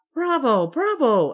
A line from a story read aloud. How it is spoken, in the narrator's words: exclaimed the grandfather, delighted